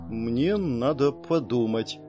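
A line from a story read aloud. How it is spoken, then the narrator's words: Uncertain mutter, young woman. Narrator (Russian): неуверенно пробормотала девушка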